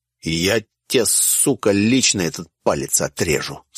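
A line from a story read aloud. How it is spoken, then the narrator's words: Spat through teeth. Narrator (Russian): сплюнул сквозь зубы другой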